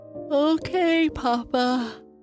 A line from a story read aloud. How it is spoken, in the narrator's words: Bernice said with a yawn